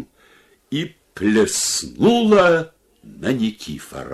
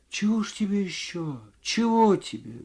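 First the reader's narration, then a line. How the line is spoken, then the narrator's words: Quiet, bewildered woman. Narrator (Russian): говорила женщина тихо и в недоумении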